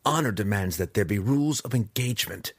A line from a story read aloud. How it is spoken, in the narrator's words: growled Drizzt